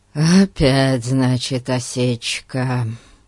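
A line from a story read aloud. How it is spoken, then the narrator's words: Disappointed sigh. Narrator (Russian): разочарованно вздохнул Ларри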